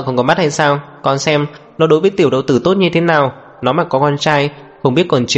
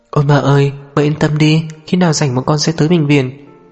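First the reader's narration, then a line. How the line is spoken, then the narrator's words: Startled sigh. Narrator (Vietnamese): Tố Diệp giật mình, thở dài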